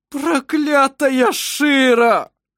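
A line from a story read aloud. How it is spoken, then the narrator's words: Sobbed. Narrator (Russian): прорыдал он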